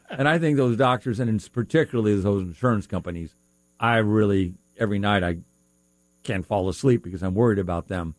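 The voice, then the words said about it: Sarcastic tone. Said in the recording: “we need a sarcasm filter that we can put on your voice”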